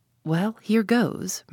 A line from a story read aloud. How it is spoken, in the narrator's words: murmured Tommy to himself